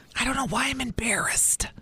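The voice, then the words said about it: Whispering. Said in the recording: “I don't know why you're whispering.”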